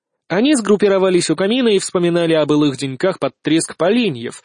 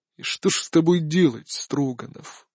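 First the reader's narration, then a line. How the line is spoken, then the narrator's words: Weary. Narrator (Russian): устало произнес император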